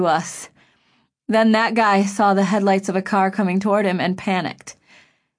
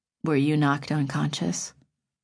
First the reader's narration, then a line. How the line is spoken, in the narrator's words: Griffin asked softly